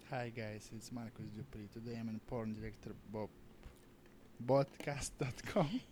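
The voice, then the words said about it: Imitates another person's voice and accent. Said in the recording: “How can we do his accent? ... see if I can get my Marcus Dupree accent ... you sound just like him”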